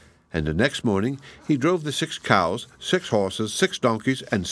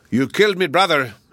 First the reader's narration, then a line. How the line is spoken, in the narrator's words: he roared, fire coming out of his 6 mouths